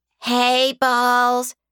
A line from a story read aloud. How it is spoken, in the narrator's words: one of the many waiting women called out